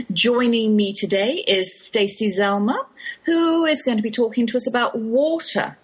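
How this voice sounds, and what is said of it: English London accent. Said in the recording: “an English accent ... East, London to be precise”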